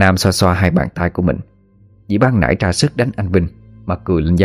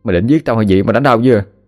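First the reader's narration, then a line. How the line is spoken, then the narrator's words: Mild snap. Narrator (Vietnamese): Anh xoa bên má đã bị đỏ ửng mà gắt nhẹ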